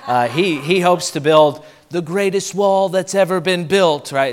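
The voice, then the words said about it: Imitates another person's voice. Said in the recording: “That's a terrible impression of him”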